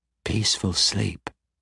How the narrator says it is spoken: Cassidea quietly whispered in her mind

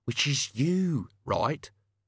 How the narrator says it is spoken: Albert hissed

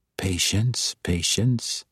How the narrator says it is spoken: Jarlaxle whispered

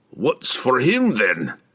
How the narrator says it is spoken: Brunner grumbled, trying to find some measure of backbone

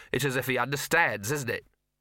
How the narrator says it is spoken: Gaspode barked sharply

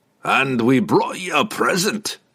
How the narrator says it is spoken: Brunner chuckled

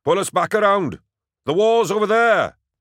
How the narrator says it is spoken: Logris bellowed

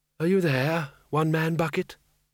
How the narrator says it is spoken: he said softly

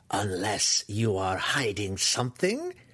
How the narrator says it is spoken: Matron Malice growled at Dinan, a threat so cold and wicked

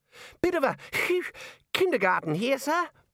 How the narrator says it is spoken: Ponder wheezed

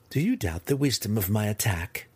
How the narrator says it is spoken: Cynife asked Malice, trying to keep a chuckle under her breath

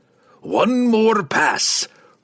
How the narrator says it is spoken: Brunner growled

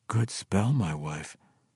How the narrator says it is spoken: Drizzt muttered through teeth that were not chattering

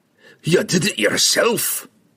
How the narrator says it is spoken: he snarled at Regis

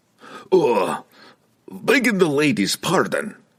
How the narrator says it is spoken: he stammered, suddenly very embarrassed by his actions

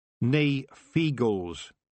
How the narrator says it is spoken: said Tiffany firmly

